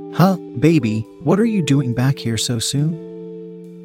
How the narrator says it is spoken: she asked in a confused tone

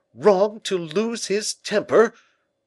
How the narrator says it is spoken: cried the king in a loud, passionate voice

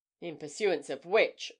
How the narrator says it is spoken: observed Breton dryly

